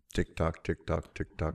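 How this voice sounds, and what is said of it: Mimics a ticking clock sound. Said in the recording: “Give me your best TikTok impression.”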